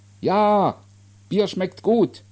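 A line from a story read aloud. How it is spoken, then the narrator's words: Called back. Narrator (German): rief zurück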